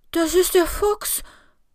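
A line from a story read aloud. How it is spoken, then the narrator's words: Trembling voice. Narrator (German): sagt Larry mit zittriger Stimme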